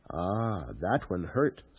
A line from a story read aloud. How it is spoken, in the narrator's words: Stilgar murmured